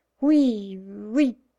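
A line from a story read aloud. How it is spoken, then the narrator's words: Dazed stammering. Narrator (French): balbutia la mégère, comme frappée d'imbécilité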